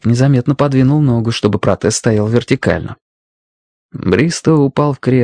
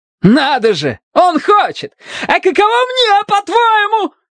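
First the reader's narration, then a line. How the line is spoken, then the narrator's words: Shouting, breaking into falsetto. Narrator (Russian): кричал Бристоу, срываясь на фальцет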